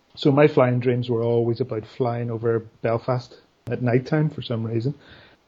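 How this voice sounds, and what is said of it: Northern Irish Belfast accent. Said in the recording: “I grew up on a hill overlooking the city of Belfast, as you can probably work out from my accent”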